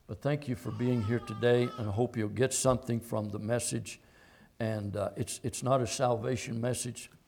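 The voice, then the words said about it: Weak voice. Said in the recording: “my voice is a little bit weak”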